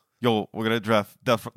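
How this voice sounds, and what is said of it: Bad yelled rapper impression. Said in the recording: “my RZA impersonation ... No, that was so. ... bad. ... I think you just yell it.”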